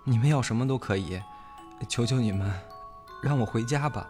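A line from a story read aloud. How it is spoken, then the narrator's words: Trembling desperate pleading. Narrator (Chinese): 白小燕已经被一系列的凌辱折磨到近乎崩溃，声音颤抖着，不停地向三个人求情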